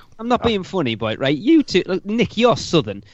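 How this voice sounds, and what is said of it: Geordie accent. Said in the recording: “that little Geordie bloke ... my accent”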